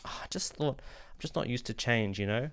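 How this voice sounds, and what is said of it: Put-on Australian accent. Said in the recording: “do your voice like that... my Australian person saying something voice”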